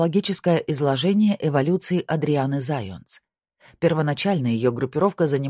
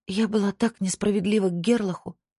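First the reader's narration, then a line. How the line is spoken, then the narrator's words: Breathed out. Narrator (Russian): выдохнула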